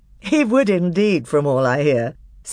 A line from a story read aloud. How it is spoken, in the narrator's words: said Peter with a laugh